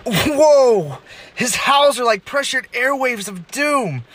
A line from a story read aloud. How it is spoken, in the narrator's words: shouting